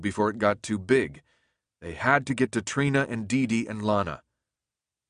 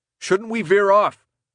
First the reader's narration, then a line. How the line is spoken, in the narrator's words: Mark shouted up to him